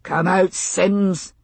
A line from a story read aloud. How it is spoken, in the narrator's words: Forbes bellowed